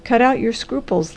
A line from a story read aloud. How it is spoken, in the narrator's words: laughed the doctor